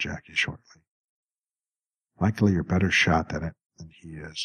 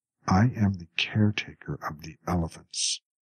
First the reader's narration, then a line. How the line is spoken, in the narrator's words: Samson said in a controlled voice